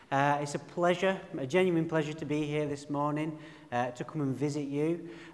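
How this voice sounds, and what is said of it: Broad northern English accent. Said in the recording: “my broad, rich northern accent, ... I'm from the Pennines. I'm from a place called Burnley”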